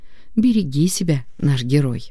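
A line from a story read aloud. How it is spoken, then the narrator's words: Tender smiling whisper. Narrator (Russian): Ласково улыбнувшись, шепотом добавила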